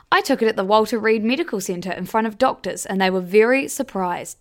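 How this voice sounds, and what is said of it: Imitates another person's voice. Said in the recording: “that Trump impersonation”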